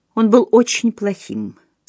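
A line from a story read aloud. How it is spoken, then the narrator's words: Calm reply. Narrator (Russian): спокойно ответила Джейн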